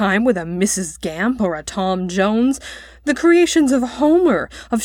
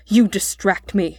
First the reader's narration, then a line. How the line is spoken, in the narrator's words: snapped Mr